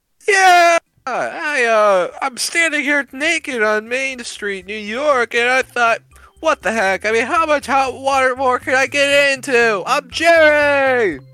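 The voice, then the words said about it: Yelling loudly. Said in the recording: “I wish you would stop yelling.”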